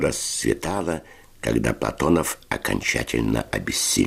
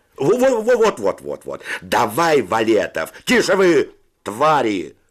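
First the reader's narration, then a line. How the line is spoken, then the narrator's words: Shouted. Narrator (Russian): закричал Федя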